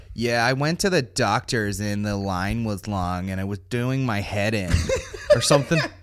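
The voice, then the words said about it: Mock American accent. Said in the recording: “a fucking American over here being like”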